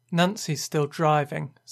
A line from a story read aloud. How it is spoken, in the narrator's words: said Peggy